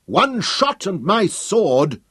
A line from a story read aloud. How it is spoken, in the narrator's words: Hal roared